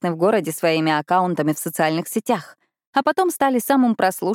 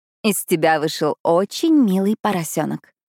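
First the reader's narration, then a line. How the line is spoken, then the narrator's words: Cooing. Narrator (Russian): проворковала я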